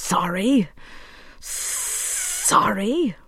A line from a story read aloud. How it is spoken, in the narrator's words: breathed the snake